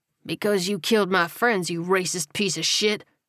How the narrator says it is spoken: Buddy snarled

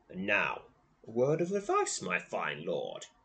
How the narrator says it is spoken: he croaks

